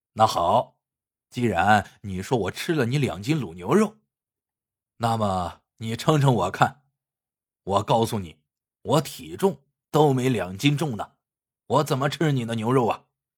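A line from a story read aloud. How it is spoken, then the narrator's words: Smiling. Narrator (Chinese): 黄大力 笑着对小伙子说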